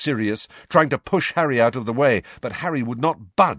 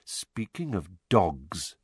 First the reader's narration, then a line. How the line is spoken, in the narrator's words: said Snape softly